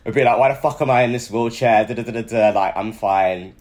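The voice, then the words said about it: Strong Liverpool accent. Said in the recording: “She has a Liverpool accent. ... It's a little strong Liverpool accent.”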